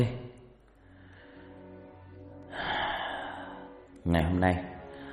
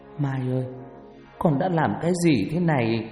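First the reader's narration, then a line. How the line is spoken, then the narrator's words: Tearful, choked voice. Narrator (Vietnamese): Hằng đứng đó nói trong nước mắt với giọng nghẹn ngào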